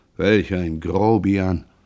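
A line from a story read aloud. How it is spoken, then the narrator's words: Annoyed muttering to himself. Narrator (German): Jean, verärgert, da er die junge Witwe gekränkt glaubte, murmelte vor sich hin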